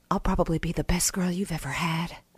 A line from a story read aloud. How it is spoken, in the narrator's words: I whispered